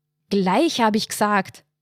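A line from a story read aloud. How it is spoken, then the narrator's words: Roaring. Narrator (German): brüllte er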